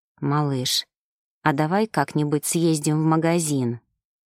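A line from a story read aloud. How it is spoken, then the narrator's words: Dazed mumble. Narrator (Russian): Словно в забытии пробормотал мужчина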